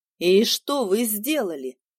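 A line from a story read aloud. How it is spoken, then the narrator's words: Plain question. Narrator (Russian): спросил Луис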